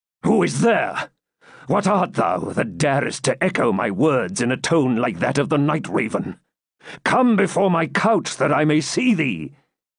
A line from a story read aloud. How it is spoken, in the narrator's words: he exclaimed